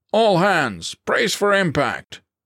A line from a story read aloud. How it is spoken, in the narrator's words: the captain bellowed